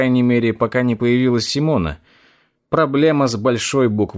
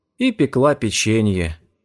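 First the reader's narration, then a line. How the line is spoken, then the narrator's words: Sad sigh. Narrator (Russian): грустно вздохнул Макс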